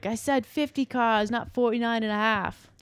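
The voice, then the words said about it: Put-on accent imitating a character. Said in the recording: “Just like that. Cause he's got an accent ... that was me impression”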